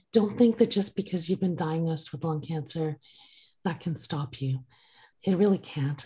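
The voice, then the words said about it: Weak, strained voice. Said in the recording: “I'm with a paralyzed vocal cord, which is still repairing now. I don't know if you can tell my voice is not as strong as I used to be”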